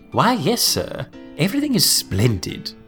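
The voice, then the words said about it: Bad put-on posh English accent. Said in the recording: “he does a bad English accent ... he does the worst Ronald Colman impression”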